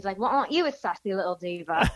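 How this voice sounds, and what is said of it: Put-on British accent. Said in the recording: “That's a great British accent, by the way. ... not bad.”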